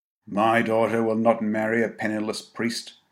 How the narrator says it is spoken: had said grimly

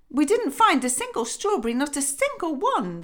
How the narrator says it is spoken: they cried

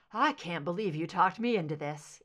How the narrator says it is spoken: Eve panted

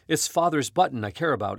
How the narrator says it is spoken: exclaimed Teddy, touching his beloved button proudly

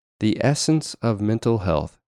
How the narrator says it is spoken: he said

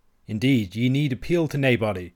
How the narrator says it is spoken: said Robin

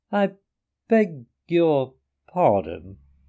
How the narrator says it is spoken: said the rat slowly, as he chewed a straw

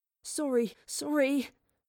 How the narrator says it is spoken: Thomas whimpered

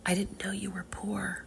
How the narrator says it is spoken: She whispered to me

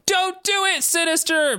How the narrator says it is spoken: Maddie cried out

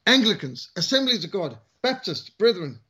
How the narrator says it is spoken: Sergeant Major was shouting out

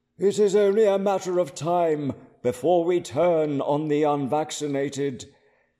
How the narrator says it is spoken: thundered the Guardian

